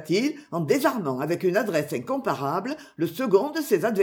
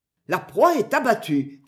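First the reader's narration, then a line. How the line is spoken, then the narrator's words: Joyful shout. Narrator (French): cria joyeusement Pierre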